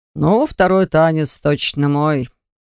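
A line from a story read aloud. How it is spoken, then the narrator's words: Amused snort. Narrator (Russian): хмыкнул владыка льда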